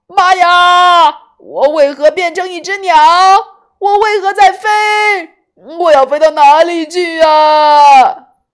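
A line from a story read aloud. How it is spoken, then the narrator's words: Loud startled cry. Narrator (Chinese): 一时大声叫了出来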